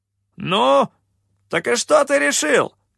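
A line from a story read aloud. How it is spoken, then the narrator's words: Shouted. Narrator (Russian): выкрикнул капитан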